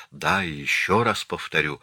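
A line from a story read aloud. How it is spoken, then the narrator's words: Frightened defiant whisper. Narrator (Russian): Побледнев от страха, но не желая сдаваться, Марианна прошептала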